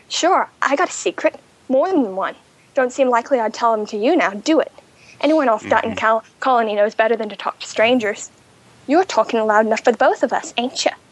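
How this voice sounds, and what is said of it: Attempted character accent, admittedly poor. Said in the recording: “I'm going to butcher the accent.”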